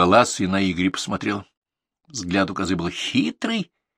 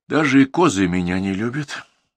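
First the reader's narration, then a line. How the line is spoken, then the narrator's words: Sad. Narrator (Russian): печально решил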